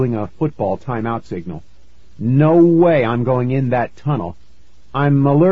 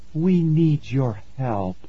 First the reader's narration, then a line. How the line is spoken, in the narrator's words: she said softly